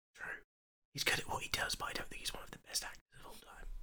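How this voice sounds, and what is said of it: Whispering. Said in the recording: “whispering”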